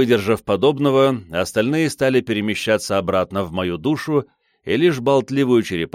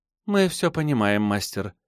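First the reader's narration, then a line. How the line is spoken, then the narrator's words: Quiet reply. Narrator (Russian): тихо ответила Кицуна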